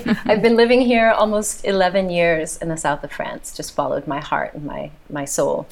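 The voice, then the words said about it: American accent. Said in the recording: “you can tell by my accent, ... American”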